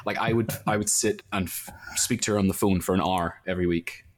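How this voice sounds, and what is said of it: Belfast accent. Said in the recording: “it's a Belfast accent”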